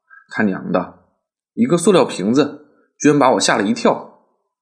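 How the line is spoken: Laughing at oneself. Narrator (Chinese): 我不禁失笑

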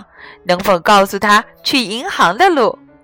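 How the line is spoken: Plain. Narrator (Chinese): 傲慢先生正要说

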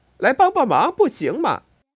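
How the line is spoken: Group shouting. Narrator (Chinese): 他们喊道

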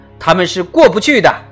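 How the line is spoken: Loud. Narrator (Chinese): 水手大声说

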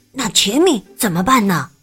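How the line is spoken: Quiet question. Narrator (Chinese): 特里小声的问悉尼

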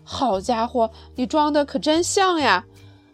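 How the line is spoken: Exclaiming. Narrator (Chinese): 他叫起来

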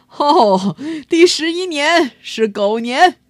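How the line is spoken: Hearty laughter. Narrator (Chinese): 玉皇大帝哈哈大笑着说

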